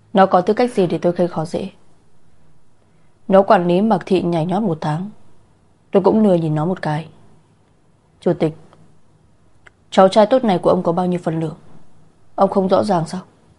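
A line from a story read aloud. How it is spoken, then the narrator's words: Angry old man coughing. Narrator (Vietnamese): Ông cụ tức giận ho khan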